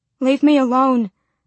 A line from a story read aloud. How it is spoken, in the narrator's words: I begged